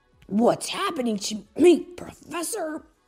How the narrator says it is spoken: Sonic growled

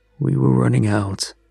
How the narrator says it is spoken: he rasped, his voice like dry gravel

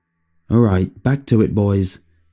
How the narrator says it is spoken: Tony said

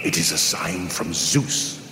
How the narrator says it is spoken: whispered Aegyptius, the old man

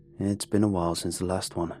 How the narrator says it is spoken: he murmurs

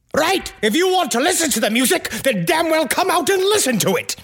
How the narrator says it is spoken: So finally, he yelled

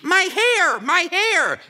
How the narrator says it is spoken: A woman is shrieking

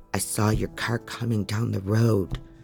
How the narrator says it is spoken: Ryan says, his voice in a shamed mumble now

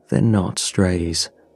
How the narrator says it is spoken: he said finally

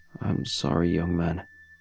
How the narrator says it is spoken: he whispered weakly

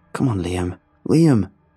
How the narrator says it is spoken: I could hear the desperation and pleading in Grayson's voice

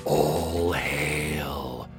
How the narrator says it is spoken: A few of the dragons are whispering upon seeing the cloud approach

